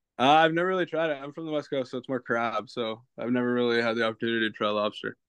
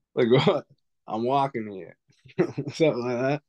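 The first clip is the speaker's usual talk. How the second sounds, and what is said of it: Attempted Boston accent. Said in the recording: “Can you do your best Boston accent? ... That was pretty good. That was pretty good.”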